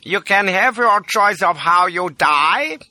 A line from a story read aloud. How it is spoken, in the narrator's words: jeers he